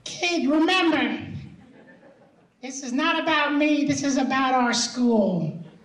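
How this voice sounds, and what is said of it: Imitates another person's voice. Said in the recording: “I'll try to do my best Joe impression”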